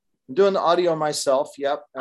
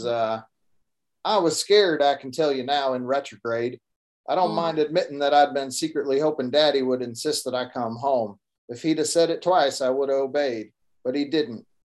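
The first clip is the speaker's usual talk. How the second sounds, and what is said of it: Put-on Texas accent. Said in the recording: “I do a Texas accent ... I do the little Texas accent for Stetson Jeff ... I think my Texas accent's decent”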